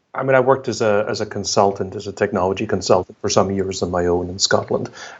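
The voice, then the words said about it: Scottish accent. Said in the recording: “I can obviously tell from your accent, that you're from Scotland.”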